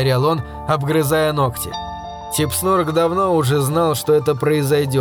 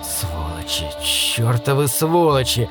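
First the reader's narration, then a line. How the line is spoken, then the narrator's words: Mumbling. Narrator (Russian): бормотал он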